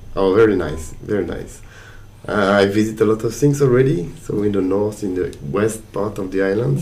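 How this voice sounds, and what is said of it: Strong French accent. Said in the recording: “very strong French accent”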